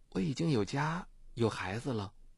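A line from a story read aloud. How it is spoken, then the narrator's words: Flat, calm. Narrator (Chinese): 顾晓东淡淡的说了句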